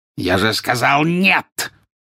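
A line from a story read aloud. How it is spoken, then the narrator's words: Bark. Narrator (Russian): рявкнул жестоколицей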